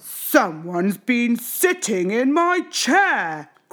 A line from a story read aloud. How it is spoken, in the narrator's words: growled Papa Bear